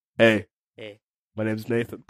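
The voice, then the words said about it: Deep voice imitating another person. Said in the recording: “I don't do that deep voice.”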